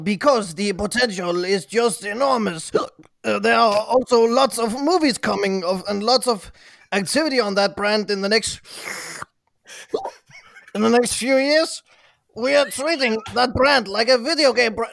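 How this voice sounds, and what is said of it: Drunken-sounding fake French accent. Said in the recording (Danish): “Læs hele citatet op, hvor du er pløret. Og med fransk accent, tak.”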